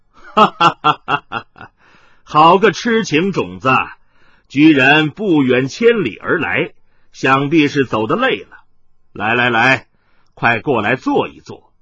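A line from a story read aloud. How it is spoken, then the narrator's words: Loud laughter. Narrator (Chinese): 麻衣客纵声笑道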